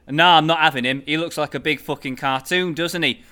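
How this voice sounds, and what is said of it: Put-on Manchester accent. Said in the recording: “I'm going to read it in my finest Manchester accent”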